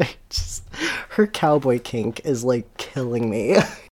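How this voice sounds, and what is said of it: Usual voice. Nothing is said of it.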